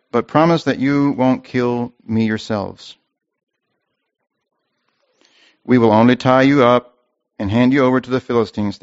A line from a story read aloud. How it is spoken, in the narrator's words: they replied